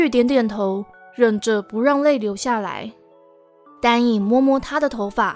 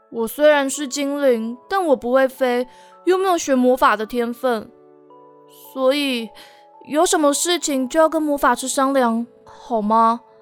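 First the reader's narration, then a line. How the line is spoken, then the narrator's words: Sighing. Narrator (Chinese): 丹影听完，叹了一口气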